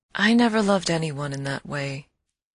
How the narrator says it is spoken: she said rather sadly

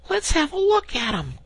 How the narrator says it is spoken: cried the rat

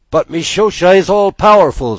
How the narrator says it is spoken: screamed the gulls

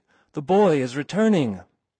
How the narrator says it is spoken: cried a voice to other voices, who repeated

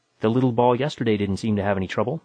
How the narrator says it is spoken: I said

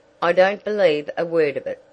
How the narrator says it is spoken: said Mrs

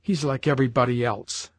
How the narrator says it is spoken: she added bitterly

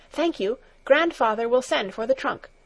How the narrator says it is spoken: she said hastily

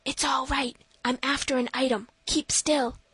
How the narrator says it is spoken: whispered

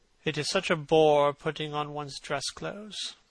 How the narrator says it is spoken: muttered Hallward

